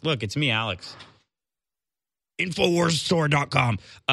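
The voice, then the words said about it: Imitates another person's voice. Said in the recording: “that was my impression”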